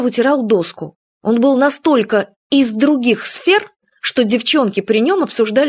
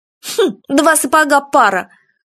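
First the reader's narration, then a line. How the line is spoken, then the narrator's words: Wry snort. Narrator (Russian): хмыкнула Светка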